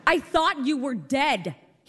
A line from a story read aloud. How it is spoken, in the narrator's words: he screamed